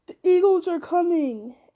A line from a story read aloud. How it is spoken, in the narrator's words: cried in a loud voice ringing above the din